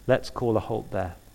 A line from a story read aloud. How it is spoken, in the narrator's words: said softly